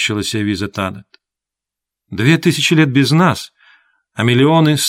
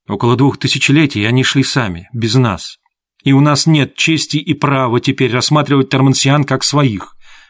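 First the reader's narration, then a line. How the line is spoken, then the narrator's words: Sharp objection. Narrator (Russian): резко возразила Тивиса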